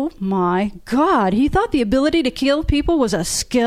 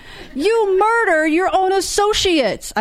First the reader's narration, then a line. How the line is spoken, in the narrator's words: shouted